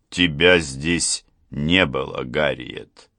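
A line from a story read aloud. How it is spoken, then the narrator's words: Icy tone. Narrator (Russian): сказал он ледяным тоном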